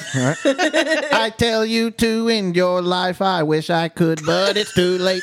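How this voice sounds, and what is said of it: Sung imitation of another singer. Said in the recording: “You got to sing it. ... We love the impersonation.”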